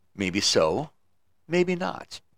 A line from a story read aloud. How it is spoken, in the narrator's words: very kindly said